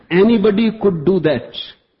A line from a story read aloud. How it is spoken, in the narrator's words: he yelled from the audience